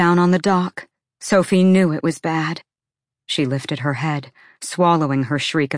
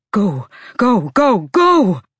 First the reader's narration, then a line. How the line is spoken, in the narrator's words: Silver's bellow stopped abruptly, and then he yelled to the captain